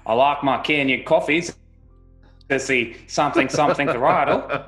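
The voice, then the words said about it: Put-on Australian accent. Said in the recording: “Was that your Aussie accent?”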